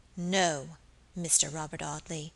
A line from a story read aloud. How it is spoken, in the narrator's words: she said aloud in a low, clear voice